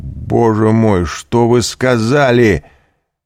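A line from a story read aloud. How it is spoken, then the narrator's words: Desperate cry. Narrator (Russian): отчаянно крикнул он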